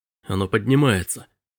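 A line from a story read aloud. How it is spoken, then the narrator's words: Breathless exhale. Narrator (Russian): выдохнул Робби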